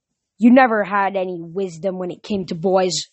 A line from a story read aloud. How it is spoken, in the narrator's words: Zoe growled